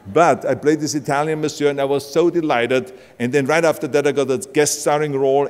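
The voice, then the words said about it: German accent. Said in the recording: “I got away with my German accent”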